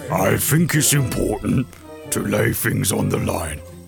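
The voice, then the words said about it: Put-on London accent, dim-witted voice. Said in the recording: “That's the stupid version of that voice. ... That's just the London accent version.”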